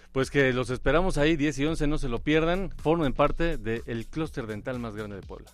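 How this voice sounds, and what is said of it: Polished radio announcer voice. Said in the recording (Spanish): “Qué bonito hablas. ... Qué bonito. Voz de locutor”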